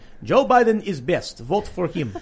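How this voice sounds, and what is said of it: Put-on Russian accent. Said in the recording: “I loved your Russian accent. That was the best. ... That was really good.”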